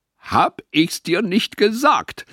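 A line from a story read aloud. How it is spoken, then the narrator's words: Triumphant shout. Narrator (German): rief er triumphierend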